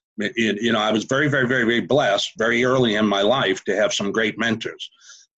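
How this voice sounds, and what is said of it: Boston accent. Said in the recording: “I'm originally from Massachusetts, Boston, Massachusetts. So you'll hear the park the car and the Harvard Yard accent.”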